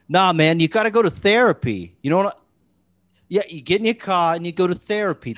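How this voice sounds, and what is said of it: Boston accent impression. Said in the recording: “I'm not going to try to do a Boston accent ... you can pull it off, Bill Burt's not too hard.”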